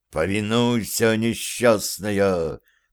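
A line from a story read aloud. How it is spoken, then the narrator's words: Whispered invitation. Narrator (Russian): Так же шепотом пригласил Зверев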